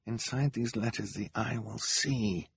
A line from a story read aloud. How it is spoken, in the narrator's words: Klaus muttered again